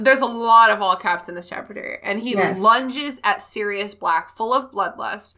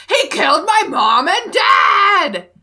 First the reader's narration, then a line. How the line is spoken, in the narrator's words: Harry … screams